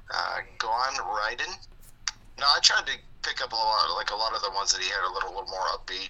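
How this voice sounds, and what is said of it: Hoarse, froggy, fading voice. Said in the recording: “My voice is kind of going, so if I sound froggy”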